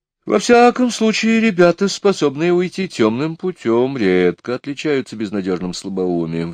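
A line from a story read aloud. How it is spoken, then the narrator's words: Sighing. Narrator (Russian): вздохнул я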